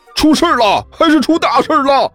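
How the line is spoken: Teacher, loud. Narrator (Chinese): 那名老师大声说道

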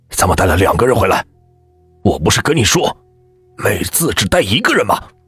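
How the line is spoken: Fierce low voice. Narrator (Chinese): 爸爸凶狠狠的低声对我说

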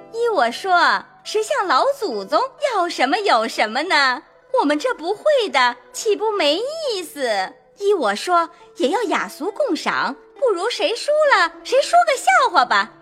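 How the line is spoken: Laughing. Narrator (Chinese): 凤姐笑道

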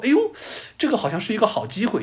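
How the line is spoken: Sudden whimsical idea. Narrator (Chinese): 赫鲁晓夫同志，又突发奇想的说

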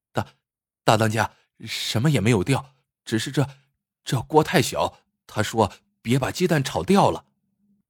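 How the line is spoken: Flustered stammering. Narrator (Chinese): 小黄毛慌忙起身，结结巴巴的解释说

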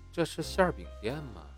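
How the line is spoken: Sighing. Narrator (Chinese): 不禁叹了口气

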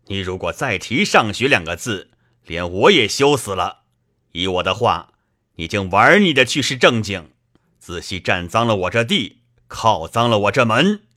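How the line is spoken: Sneering. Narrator (Chinese): 贾政冷笑道

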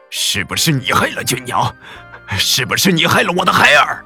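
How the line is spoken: Heartbroken roar. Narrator (Chinese): 王明阳这会儿也冲了进来，撕心裂肺的朝季氏吼道

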